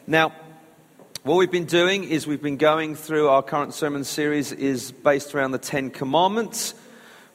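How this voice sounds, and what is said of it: Croaky hoarse voice. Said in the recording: “my croaky voice, recovering from laryngitis ... I don't sound quite my normal self”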